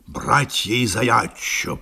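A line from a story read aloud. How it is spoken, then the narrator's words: Muttering. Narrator (Russian): пробормотал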